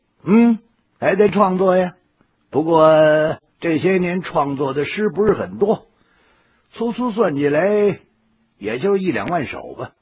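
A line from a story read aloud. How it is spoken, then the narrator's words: Light laugh. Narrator (Chinese): 魏爷笑了笑说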